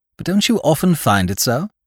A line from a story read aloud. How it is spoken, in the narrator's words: he asked